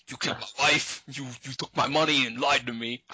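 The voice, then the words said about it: Put-on unidentified accent. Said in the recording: “I don't know what accent I'm doing”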